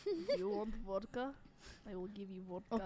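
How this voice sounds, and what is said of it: Put-on Russian accent, not very good. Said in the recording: “I can attempt a Russian accent. It's not that good.”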